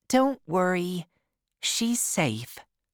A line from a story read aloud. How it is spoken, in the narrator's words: Holly said